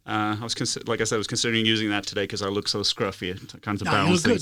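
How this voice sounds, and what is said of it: British accent. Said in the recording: “I've literally got a British accent”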